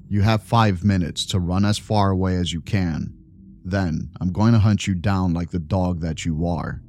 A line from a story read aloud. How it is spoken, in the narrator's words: he growled